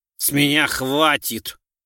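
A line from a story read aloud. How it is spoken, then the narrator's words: Suddenly rude. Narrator (Russian): неожиданно грубо сказал он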